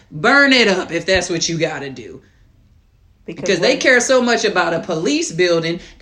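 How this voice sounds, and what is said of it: Screaming, impassioned loud voice. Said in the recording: “sorry I'm screaming right now, but I'm a little passionate today”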